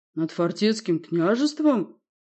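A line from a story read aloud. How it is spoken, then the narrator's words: Gloomy question. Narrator (Russian): мрачно уточнил Турван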